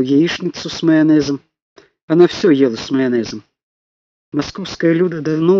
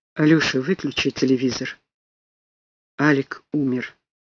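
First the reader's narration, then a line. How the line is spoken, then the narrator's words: Quiet. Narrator (Russian): тихо сказал Фима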